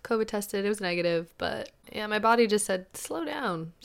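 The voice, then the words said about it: Slightly raspy voice. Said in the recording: “my voice is a little raspy, a little bit”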